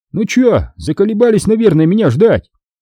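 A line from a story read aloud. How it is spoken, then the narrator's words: Cheerful speech. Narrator (Russian): туркмен бодро сказал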